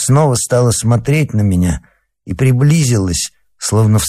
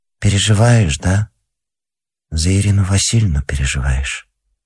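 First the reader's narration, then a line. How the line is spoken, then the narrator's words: Quiet speech. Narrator (Russian): тихо сказала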